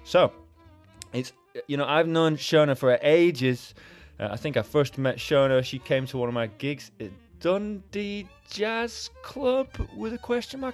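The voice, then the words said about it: Slight Scottish accent. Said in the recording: “I am sort of from Scotland. You might be able to tell from my accent.”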